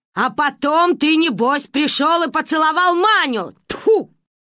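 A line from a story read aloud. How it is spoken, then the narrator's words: Shouting. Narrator (Russian): кричала она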